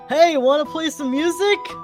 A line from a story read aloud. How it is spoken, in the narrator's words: Zeno is getting incredibly drunk, and he'll just yell over to Finn